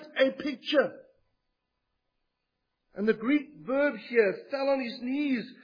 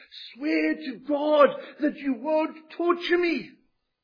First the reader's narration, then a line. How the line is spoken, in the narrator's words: he shouts at the top of his voice, pleading